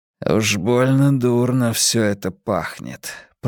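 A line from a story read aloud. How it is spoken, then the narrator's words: Mutter. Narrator (Russian): пробормотал Бадди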